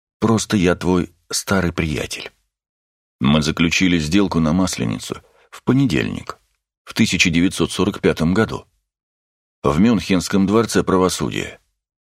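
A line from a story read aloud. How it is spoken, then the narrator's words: Quiet hoarse voice. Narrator (Russian): Тихим хриплым голосом Роган ответил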